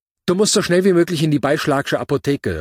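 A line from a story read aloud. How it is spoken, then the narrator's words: Calling out. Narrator (German): rief sie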